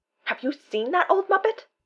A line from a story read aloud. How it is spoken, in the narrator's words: Donut gasps